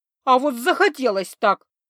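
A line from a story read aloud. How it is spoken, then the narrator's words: Angry retort. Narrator (Russian): зло парировала Лиса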